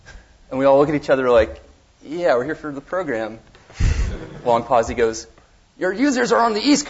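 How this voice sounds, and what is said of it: Usual voice. Nothing is said of it.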